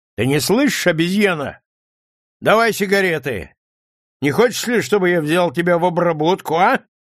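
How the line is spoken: Loud smug laughing. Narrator (Russian): Он смеется громко и самодовольно, покачиваясь на ногах

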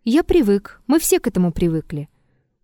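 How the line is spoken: Calm. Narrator (Russian): Триродов спокойно ответил

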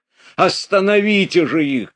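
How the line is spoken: Urgent shout. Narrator (Russian): крикнул он

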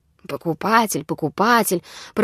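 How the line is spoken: Grumbling reply. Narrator (Russian): проворчал ей в ответ Назар

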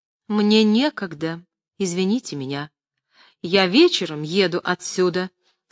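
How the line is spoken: Calm. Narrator (Russian): спокойно отвечала Любская

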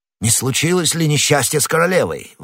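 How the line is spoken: Anxious, loving exclamation. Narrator (Russian): воскликнул герцог, и в этом возгласе сказалась вся его забота и любовь

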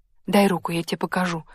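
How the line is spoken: Whisper in ear. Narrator (Russian): зашептала на ухо Плишкина

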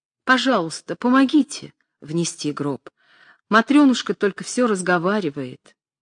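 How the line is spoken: Joyful pleading. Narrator (Russian): она радостно умоляющим голосом сказала

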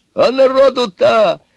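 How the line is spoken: Yelling. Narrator (Russian): заорал Иван

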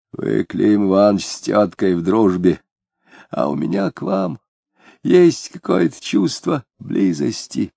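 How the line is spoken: Hoarse whisper. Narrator (Russian): говоря голосом, пониженным до сиплого шепота

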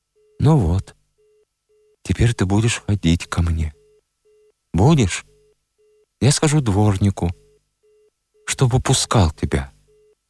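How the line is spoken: Calm, deep even breathing. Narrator (Russian): спокойно сказала, вздыхая глубоко и ровно

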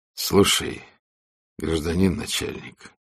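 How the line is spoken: Quiet plea. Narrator (Russian): попросил военный тихо

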